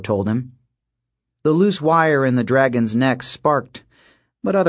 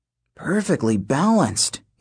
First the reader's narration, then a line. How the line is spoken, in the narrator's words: he muttered